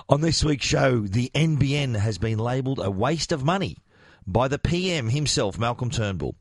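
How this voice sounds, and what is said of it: Strained, worn-out voice. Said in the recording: “apologize for my voice ... sang every word to every song, which is why I'm sounding like this”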